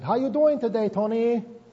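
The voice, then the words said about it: Imitated Korean accent. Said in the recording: “this little Korean lady about this big. And she says in that accent”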